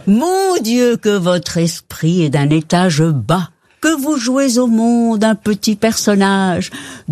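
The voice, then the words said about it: Put-on Belgian French accent. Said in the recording (French): “avec l'accent belge”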